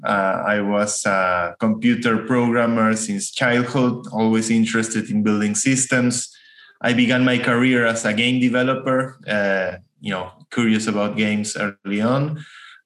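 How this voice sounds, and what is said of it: Argentinian-accented English. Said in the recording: “I'm from Argentina. That's where my accent comes from.”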